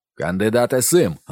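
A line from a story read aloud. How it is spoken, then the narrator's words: Captain barking. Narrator (Ukrainian): гаркнув ротмістр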